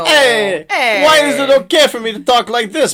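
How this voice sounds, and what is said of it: Put-on, wandering Italian accent. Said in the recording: “accent ... I don't know where that accent went, but it wasn't where you intended it to go ... Italian”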